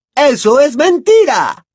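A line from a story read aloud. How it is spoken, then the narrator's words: Shouted exclamation. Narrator (Spanish): exclamó Bellatrix gritando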